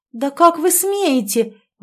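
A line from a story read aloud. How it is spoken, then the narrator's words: Exclaimed. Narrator (Russian): воскликнула в выступлении Ольга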